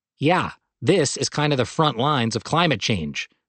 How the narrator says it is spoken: Sontag replied

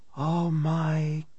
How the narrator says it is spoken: a voice whispered, mourned almost, on the tape

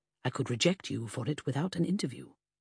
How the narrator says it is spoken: G muttered

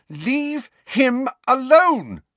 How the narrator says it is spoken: Lily shouted

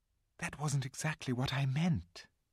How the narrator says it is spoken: whispered Susan to Lucy

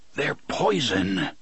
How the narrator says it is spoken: Roland whispers

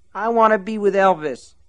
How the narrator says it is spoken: she whined

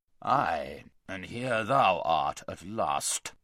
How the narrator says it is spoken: said the king in a very gruff voice

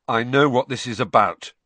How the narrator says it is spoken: said Harry

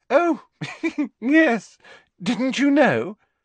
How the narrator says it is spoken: said Hermione, with a most un-Hermione-ish giggle

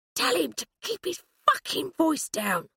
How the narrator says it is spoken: Hurst hissed at Alf

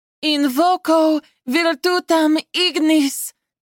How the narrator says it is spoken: Zenith yelled

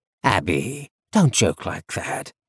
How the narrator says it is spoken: her father said in a playful tone

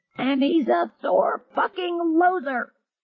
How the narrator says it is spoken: with a final ludicrous defiance, Pitt screamed

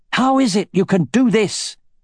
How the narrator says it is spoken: he shouted, straining every muscle in his body

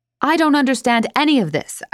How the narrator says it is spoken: shout

